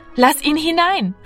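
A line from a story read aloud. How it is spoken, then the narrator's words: Called out. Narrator (German): rief Martina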